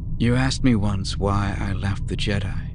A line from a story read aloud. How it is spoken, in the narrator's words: she mumbled, feeling herself drifting away